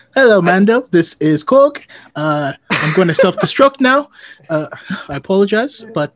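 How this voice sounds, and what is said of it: New Zealand accent character voice. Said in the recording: “doing an accent in front of people, so hopefully it wasn't terrible ... New Zealand is really hard to do, so that was pretty good”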